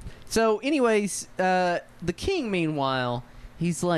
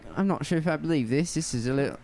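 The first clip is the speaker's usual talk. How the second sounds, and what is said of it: Put-on Yorkshire accent. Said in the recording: “I've got, like, a Yorkshire accent.”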